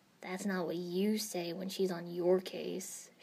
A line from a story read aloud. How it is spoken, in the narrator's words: grumbled